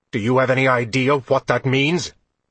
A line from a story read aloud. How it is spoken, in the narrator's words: Durzo snapped